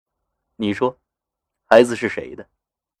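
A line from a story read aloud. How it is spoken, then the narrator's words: Cold voice. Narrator (Chinese): 田中的声音很清冷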